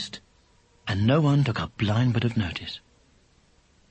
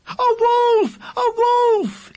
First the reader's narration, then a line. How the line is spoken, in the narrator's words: the boy cried